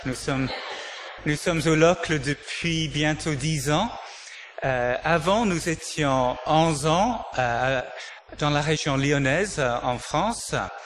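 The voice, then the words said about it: English accent in French. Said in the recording (French): “cet accent, je l'ai pas eu au Locle... au départ, je suis d'origine anglaise”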